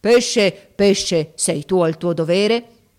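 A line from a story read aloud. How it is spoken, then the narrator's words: Terrible voice. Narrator (Italian): con voce terribile gli disse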